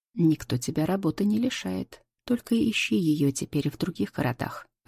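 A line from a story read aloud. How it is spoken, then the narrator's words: Calm reply. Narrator (Russian): отвечаю спокойно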